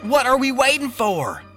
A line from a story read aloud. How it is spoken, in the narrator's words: Jerry blurted